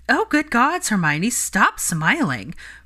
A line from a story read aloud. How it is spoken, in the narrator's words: Parvati exclaimed